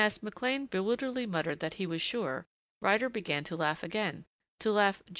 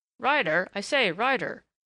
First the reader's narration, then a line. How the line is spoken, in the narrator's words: said a hurried voice, Thatcher's voice, in perturbed urgency